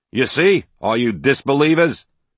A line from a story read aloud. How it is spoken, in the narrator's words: he shouted loud enough for everyone to hear